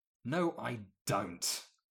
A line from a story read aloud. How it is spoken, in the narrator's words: Wolf grumbled